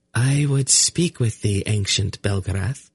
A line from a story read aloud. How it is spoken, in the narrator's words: the seeress said in her light, clear voice